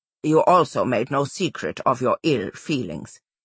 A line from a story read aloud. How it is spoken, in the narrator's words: Karayan said